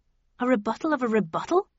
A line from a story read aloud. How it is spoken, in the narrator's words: I cried